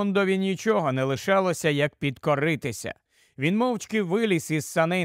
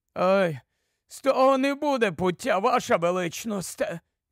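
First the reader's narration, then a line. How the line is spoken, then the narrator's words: Sighing dwarf. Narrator (Ukrainian): зітхнув гном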